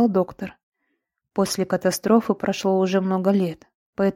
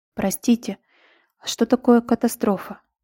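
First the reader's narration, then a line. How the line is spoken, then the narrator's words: Quiet question. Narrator (Russian): тихо спросила Лира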